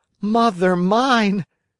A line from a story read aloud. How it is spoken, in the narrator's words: cried the Marionette, scared to death